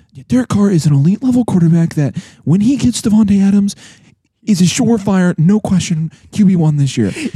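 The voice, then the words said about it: Imitates another person's voice. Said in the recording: “I'll do an impersonation of what you said right now. ... It was my best impression.”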